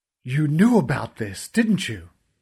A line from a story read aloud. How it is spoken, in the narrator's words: I spat at Essa